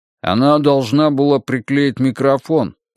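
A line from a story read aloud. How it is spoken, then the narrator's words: Grumbling. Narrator (Russian): проворчал Юхан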